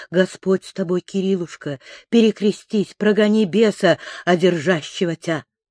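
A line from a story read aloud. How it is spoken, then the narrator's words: Sympathetic whisper. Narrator (Russian): Аввакум шептал участливо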